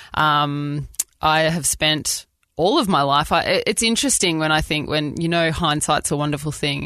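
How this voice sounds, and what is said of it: Australian accent. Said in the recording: “people always say that they really love hearing our accent speak, and I love being Australian ... we sound a little bit bogan”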